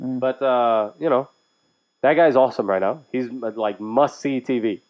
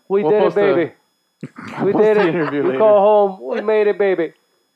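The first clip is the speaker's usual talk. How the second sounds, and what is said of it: Bad put-on Irish accent. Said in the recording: “Horrible... Irish... This is the worst Irish accent... That was so bad.”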